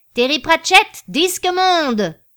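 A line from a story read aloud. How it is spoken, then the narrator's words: Yelled to a crowd. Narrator (French): hurla à l'intention de la foule invisible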